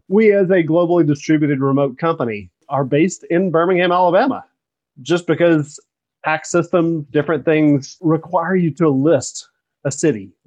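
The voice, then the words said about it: Southern drawl, Alabama accent. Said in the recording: “you can hear it in my accent, even though my accent is quite morphed to be really odd sometimes. Every now and then that Southern drawl comes out ... my Southern drawl comes out, and here I am, good old boy from Alabama”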